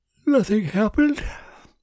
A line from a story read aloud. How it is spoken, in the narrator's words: Martin asked after a long yawn